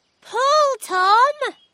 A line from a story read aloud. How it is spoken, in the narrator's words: cried Holly